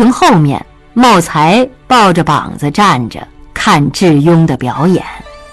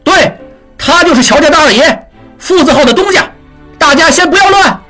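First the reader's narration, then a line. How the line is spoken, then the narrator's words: Loud. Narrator (Chinese): 常栓和几个乔家伙计大声说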